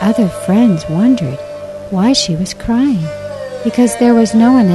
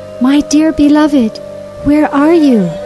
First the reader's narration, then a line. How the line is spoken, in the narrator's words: crying loudly